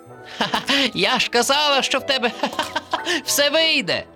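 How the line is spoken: Turtle laughing. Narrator (Ukrainian): засміялася черепашка

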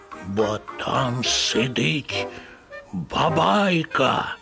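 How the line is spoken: Grandmother's scary voice. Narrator (Ukrainian): каже бабуся страшним голосом

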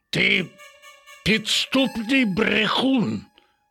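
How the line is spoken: Growling. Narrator (Ukrainian): загарчав на нього Рекс

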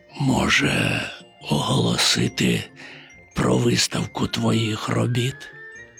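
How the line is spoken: Near-whisper. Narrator (Ukrainian): Майже пошепки мовив

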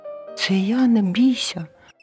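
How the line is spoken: Squeaky mouse voice. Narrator (Ukrainian): писк рудої миші

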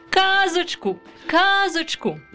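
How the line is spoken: Children shouting. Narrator (Ukrainian): закричали діти

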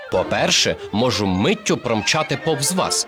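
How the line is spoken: Plain. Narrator (Ukrainian): відповів Ісі

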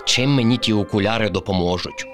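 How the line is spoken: Grumbled. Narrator (Ukrainian): буркнув Кріт

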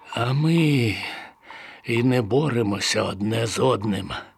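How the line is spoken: Sighing prisoner. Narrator (Ukrainian): зітхнув полонений

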